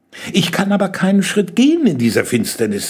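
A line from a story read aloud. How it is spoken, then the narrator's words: Plain. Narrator (German): sagte Jenny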